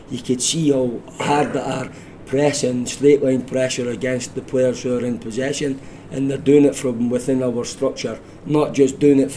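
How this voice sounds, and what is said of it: Scottish accent. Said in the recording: “this Scottish accent”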